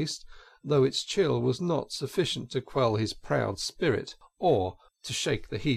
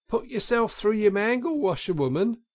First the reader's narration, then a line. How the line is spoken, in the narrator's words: she cried out